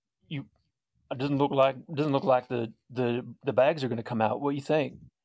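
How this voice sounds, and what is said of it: Put-on Texas accent. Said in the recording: “Why does he have a Texas accent?”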